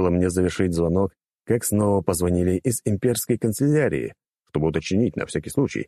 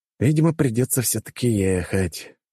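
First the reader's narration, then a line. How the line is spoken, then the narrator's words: Resigned sigh. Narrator (Russian): обреченно вздохнул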